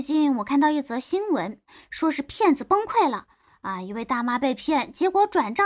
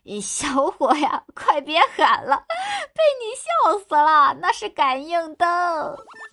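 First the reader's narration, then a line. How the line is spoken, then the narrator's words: Breathless, broken with laughter. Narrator (Chinese): 老板娘终于说话了，听声音呢，应该是笑岔气了，断断续续的说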